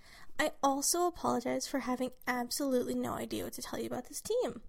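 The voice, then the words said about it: Sick, strained voice. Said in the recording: “I'm sick, so apologize for my voice”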